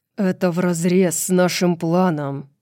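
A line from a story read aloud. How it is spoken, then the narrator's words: Growl. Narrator (Russian): прорычал Хант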